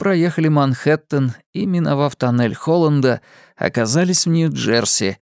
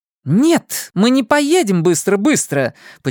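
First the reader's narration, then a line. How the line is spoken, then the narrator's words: Impatient shout. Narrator (Russian): потеряв терпение, закричала Трейси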